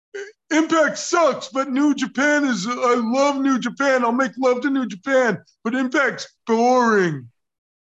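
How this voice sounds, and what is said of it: Good impersonation of someone's voice. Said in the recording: “That was a pretty good impersonation, actually.”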